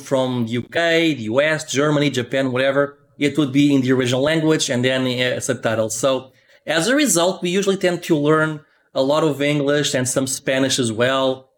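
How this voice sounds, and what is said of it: Non-native English accent. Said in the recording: “this accent does not go away ... accusing you for being Borat”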